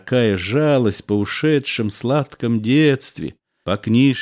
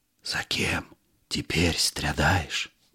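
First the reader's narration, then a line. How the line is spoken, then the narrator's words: Whisper in ear. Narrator (Russian): шепнул на ухо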